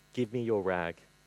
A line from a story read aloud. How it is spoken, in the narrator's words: said gently